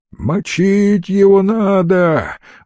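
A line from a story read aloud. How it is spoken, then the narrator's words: Jackal's shout. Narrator (Russian): выкрикнул шакал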